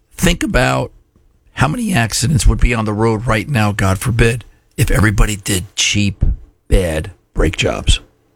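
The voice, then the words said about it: Hoarse, strained voice. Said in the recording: “lost my voice.”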